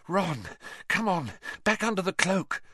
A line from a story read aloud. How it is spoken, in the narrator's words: Hermione panted